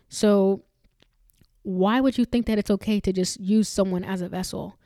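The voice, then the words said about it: Angry-sounding delivery. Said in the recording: “I'm sorry if I sound angry here”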